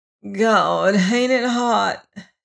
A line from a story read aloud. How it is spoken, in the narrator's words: whined miserably